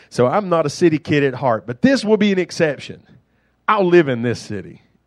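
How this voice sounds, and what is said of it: Rural country accent. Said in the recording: “I'm a country boy. Can you tell? Can you tell by my accent that I'm not a city kid”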